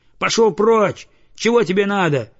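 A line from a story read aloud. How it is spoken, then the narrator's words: Shouted. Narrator (Russian): крикнул он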